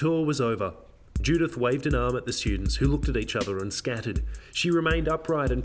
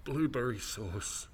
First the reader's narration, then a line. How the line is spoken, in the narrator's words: She covered her mouth and mumbled